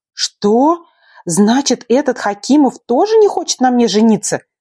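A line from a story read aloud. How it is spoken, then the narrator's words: Indignant outburst. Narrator (Russian): Возмущенно выпалила, теряя все хладнокровие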